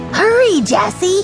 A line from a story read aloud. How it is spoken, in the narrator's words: cried 6-year-old Benny